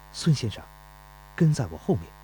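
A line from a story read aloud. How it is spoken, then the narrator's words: Low voice. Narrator (Chinese): 钟离春……低声说道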